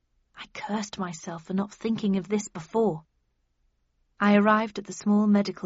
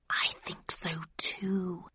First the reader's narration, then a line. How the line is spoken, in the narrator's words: he hissed